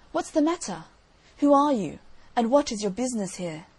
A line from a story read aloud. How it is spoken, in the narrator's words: the old gentleman, as he lifted up his eyes, cried out